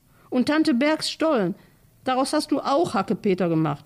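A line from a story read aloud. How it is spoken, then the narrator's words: Shouting. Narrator (German): schrie Lotta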